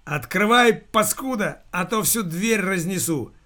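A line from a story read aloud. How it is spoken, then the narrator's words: Yelling. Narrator (Russian): завопил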